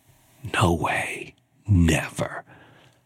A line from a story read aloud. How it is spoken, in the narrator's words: whispered to myself